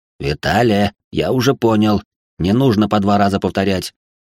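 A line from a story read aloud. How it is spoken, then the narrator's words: Displeased grumbling. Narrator (Russian): недовольно проворчал компаньон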